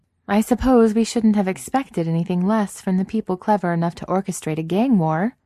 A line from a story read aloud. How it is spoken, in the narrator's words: Franny says with a sigh